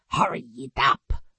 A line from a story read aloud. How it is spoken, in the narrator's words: Vince growled